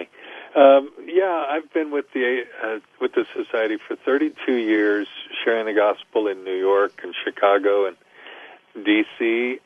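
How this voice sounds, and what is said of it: Non-Australian accent. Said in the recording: “this doesn't sound like an Australian accent,”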